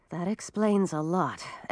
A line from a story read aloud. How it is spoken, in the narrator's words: Emma murmured to herself